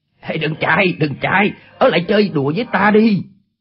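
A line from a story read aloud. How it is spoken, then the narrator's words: Shouting. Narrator (Vietnamese): Chu Bá Thông quát lên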